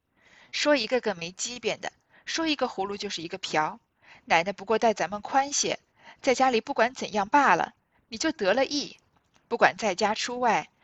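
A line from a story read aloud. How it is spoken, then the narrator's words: Laughing. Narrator (Chinese): 银蝶笑道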